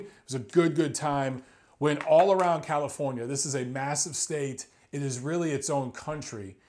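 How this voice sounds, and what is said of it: Slightly scratchy voice. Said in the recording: “My voice is a little scratchy just from all the talking and traveling and eating and drinking.”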